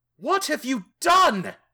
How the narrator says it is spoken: I scream

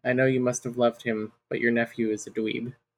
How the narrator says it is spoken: whispered

